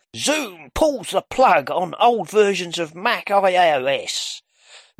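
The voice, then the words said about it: Clickbait headline-reading voice. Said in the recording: “I'm reading that in a clickbaity voice”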